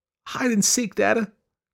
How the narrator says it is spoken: cried Gip

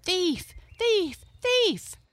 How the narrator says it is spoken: all the meadow people and all the forest folks cried

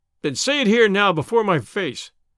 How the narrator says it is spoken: cried McMurdo

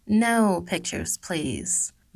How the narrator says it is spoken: Millie said kindly but firmly

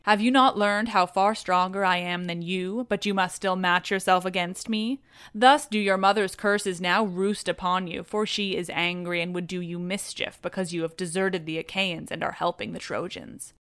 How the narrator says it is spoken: Minerva laughed and vaunted over him, saying

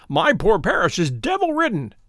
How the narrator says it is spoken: he cried

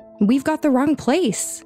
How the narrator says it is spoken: one of the men yell

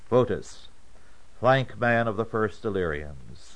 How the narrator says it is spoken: this one called out

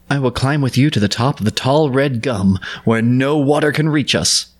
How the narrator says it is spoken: Gunda cried

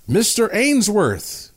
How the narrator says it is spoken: a voice called out

